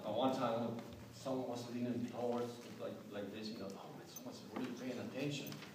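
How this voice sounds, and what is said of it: Speaks with a noticeable foreign accent. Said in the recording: “You notice I have an accent, right?”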